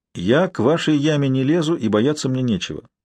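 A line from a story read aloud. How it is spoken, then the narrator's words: Calm. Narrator (Russian): спокойно ответил Куган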